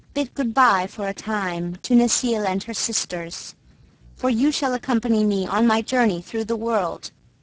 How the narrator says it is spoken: With mourning he called Claus aside, in kindly fashion, saying

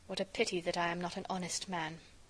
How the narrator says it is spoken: I muttered

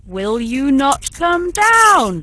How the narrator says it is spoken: roared Bluebeard

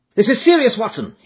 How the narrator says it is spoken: he cried

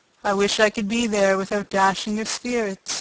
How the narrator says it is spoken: he said

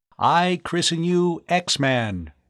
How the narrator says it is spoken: Tom intoned

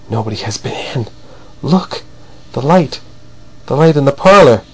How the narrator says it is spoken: Verloc gasped out

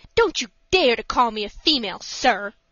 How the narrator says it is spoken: said the lady furiously

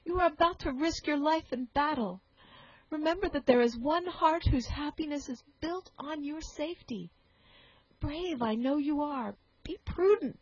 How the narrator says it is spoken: added the sobbing girl

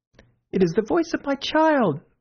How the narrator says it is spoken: the White Queen cried out

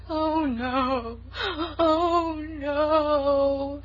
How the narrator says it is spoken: wailed Sarah Ray lugubriously

